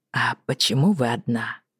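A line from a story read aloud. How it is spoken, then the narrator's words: Soft question. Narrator (Russian): мягко спросил лорд Джон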